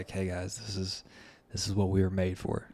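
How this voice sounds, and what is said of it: Low, flat imitated voice. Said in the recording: “in a low voice”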